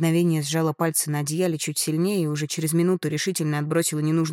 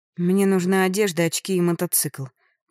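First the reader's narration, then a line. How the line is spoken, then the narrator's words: Joking. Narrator (Russian): пошутила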